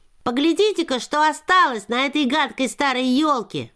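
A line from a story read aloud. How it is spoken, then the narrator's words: Shout. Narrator (Russian): крикнул он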